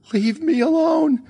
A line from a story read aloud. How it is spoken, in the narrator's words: she shrieked